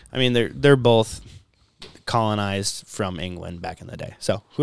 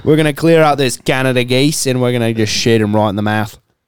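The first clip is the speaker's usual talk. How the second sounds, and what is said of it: Put-on Australian accent, Irwin-like. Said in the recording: “sounds kind of Australian, right? ... Irwin. ... basically sound Australian.”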